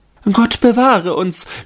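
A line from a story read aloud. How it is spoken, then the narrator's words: Young women shrieking. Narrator (German): schrien die Fräulein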